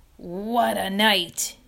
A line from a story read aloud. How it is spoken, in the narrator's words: repeated hoarsely